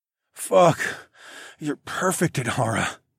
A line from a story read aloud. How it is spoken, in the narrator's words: I groaned